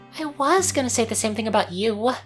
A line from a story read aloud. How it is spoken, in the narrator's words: she mumbled